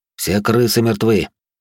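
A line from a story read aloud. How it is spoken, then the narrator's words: Weary. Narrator (Russian): устало произнес я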